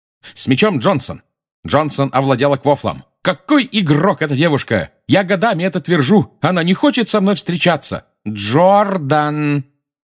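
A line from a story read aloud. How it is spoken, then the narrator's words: Shouting. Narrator (Russian): крикнула профессор МакГонагал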